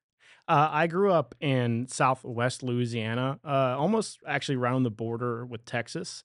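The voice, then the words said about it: Slight regional accent. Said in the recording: “you got a little bit of an accent”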